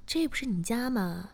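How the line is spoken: Smiling. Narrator (Chinese): 我笑着说

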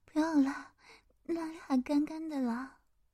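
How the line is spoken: Quiet voice. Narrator (Chinese): 我女友转过头来，小声的跟我说

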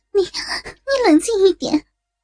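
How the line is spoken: Cold sneer. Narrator (Chinese): 大雄冷笑

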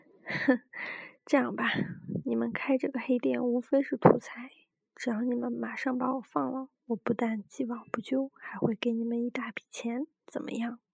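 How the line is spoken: Smiling. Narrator (Chinese): 红妹笑着说道

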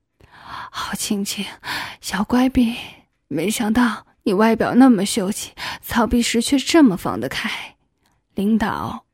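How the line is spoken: Excited, panting. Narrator (Chinese): 似乎更加兴奋了 喘着粗气对我说

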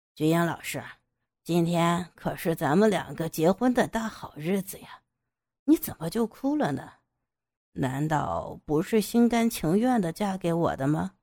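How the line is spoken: Feigned gentle question. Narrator (Chinese): 杨野故作温柔的问道

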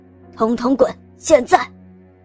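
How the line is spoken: Sudden fierce roar. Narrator (Chinese): 李坤突然用凶狠的语气大声吼道

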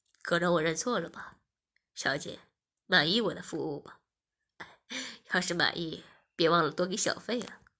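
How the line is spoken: Smiling. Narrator (Chinese): 技师笑着说

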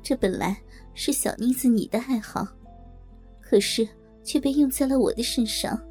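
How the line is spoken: Wry, bitter. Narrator (Chinese): 她苦笑了一下，然后说道

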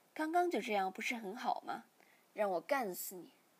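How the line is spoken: Plain. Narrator (Chinese): 说着

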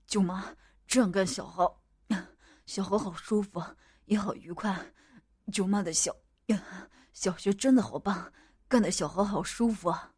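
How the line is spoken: Panting. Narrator (Chinese): 我也喘息着回应

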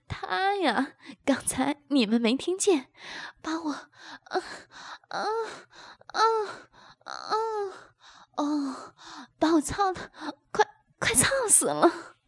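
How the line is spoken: Panting, laughing. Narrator (Chinese): 阿芳边气喘吁吁边笑道

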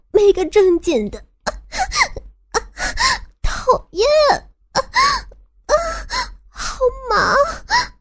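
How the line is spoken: Laughing, in the ear. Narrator (Chinese): 笑着在我的耳边说着

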